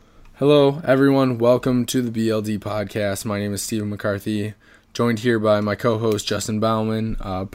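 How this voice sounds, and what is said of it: Hoarse, strained recovering voice. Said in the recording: “Pardon my voice. Earlier this week, I did not have one, and that lasted for 5 days”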